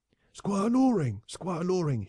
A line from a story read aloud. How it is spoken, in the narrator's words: he cried